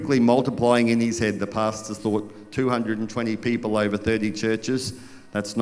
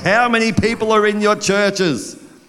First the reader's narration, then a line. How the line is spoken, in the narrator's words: the pastor looked like he was ready to shake them and practically yelled